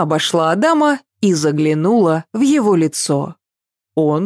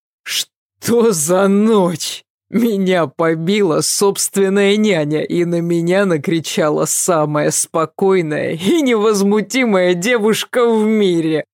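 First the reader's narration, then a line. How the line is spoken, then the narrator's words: Groaning. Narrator (Russian): простонал Адам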